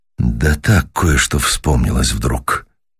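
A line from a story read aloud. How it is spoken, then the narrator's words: Quiet, musing voice. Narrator (Russian): начал мистер Уэллс негромко, словно рассказывая самому себе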